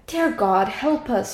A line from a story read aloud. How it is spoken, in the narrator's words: she cried